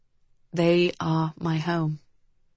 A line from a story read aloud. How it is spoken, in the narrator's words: Cedric said, his voice almost a whisper